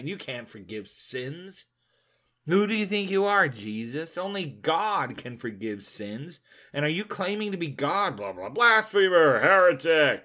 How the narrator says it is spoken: They began to grumble and complain

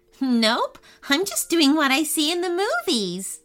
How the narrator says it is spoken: Ava chuckled

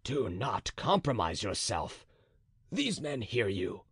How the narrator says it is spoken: said Monsieur de Gesvres in a low voice to the musketeer

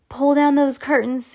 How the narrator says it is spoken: Sam shouted

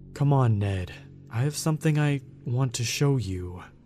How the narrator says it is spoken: it stammered, like it was still trying to figure out how to work its tongue

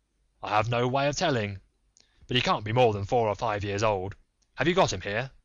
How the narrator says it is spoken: The sailor drew a long breath, with the air of a man relieved of some intolerable burden, and then replied in an assured tone

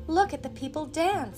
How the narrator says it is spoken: exclaimed Marie

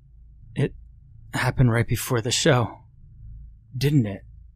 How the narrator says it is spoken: Ronnie sighed

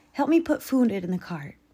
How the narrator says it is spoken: Mom sighed

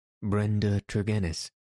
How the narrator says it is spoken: said he

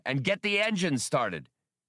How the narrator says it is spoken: he hollered up into the darkness at Chewbacca

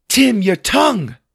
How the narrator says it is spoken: shouted

